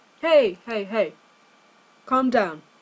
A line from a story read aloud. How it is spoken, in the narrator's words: Dean said firmly